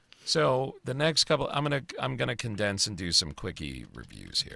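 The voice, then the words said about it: Strained, deteriorating voice. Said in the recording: “my voice is turning to shit.”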